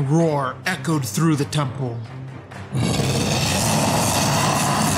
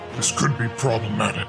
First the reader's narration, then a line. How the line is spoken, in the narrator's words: Darunia said, his voice a deep rumble